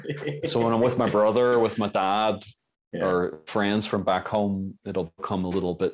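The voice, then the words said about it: Irish accent softened toward American. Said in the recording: “this is the Irish guy ... With your weird accent and you modify your accent ... You kind of modify your accent so people actually understand you ... This is probably like my American version of my accent right now that I'm instinctively doing.”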